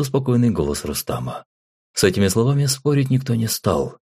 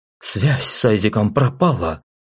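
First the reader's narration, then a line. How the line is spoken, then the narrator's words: Hysterical near-shout. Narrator (Russian): с нотками истерики почти вскрикнула Мелинда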